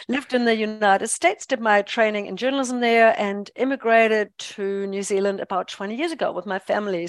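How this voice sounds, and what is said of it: German accent with mixed influences. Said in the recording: “as you can hear from my accent. ... I'm a born and bred German ... my accent is just all over the place now.”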